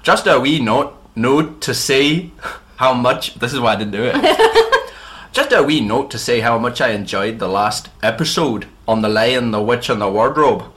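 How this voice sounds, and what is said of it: Put-on Northern Irish Ulster accent. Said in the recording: “They want Belfast. ... I can't promise Belfast, but I'll try just Ulster. ... You just gotta talk through your nose ... I'll do the Ian Paisley.”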